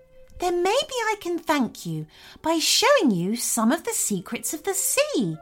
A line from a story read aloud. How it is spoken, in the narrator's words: exclaimed Bella excitedly